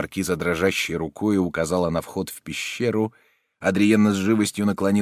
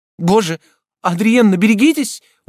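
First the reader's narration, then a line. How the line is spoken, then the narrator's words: Horrified exclamation. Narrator (Russian): воскликнула маркиза с ужасом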